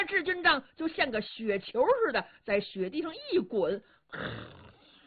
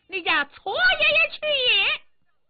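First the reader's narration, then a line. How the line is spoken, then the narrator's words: Loud shouting. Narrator (Chinese): 智军章高声喊嚷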